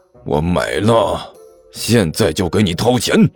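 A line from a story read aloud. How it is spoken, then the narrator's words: Grudging, pained man. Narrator (Chinese): 那个男的咬咬牙……苦着脸说道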